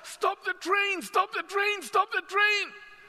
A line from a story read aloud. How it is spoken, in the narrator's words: on the other side of the line somebody urgently cry out